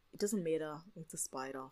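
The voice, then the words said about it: Monotone put-on Australian accent. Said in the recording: “monotone Australian accent”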